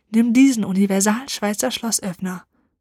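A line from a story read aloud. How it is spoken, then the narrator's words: Conspiratorial whisper. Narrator (German): raunte verschwörerisch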